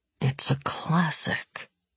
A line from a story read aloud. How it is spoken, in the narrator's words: Tolia scowled and muttered